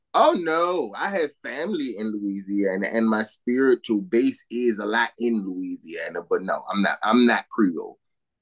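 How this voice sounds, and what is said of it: Southern country accent. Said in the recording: “people tend to get the accents mixed up. See, I'm more country, less French.”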